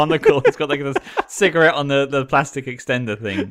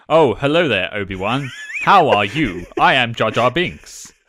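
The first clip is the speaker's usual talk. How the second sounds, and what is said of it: Put-on British accent. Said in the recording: “his voice changes completely... speaking in a British accent.”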